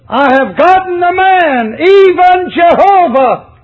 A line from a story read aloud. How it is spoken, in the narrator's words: she cried out in joy